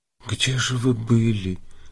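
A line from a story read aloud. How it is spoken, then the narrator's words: Frightened whisper. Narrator (Russian): спросила она испуганным шепотом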